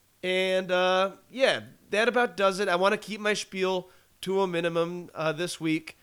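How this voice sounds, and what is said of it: Voice not at its best. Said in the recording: “my voice isn't up to par. Getting a little bit better.”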